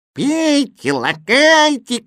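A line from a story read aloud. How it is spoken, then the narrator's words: Shouting. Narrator (Russian): кричал Кузя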